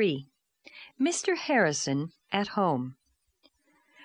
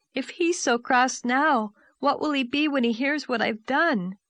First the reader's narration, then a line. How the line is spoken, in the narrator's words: she reflected miserably